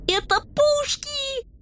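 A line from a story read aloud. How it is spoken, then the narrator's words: Joyful yelling. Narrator (Russian): радостно заорал рыжий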